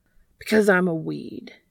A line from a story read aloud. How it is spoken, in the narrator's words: he barked out